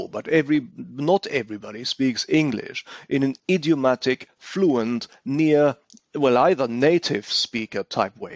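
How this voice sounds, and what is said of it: German accent in English. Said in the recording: “note the way I pronounce this. It doesn't even sound English ... my accent is bad enough ... Everybody knows I'm German by the way I speak”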